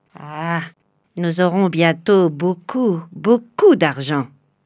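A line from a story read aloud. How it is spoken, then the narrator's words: Sneering laugh. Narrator (French): ricana Gégé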